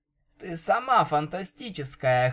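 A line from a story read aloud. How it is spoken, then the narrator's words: Hoarse reply. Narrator (Russian): хрипло ответила Винил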